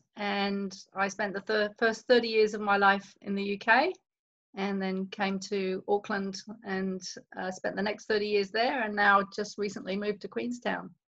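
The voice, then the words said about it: British accent, London area. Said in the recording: “I grew up in the UK, and people can probably spot that from my accent ... Northwest London, so outskirts of London”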